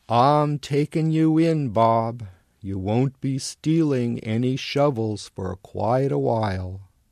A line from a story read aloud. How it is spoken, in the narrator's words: He growls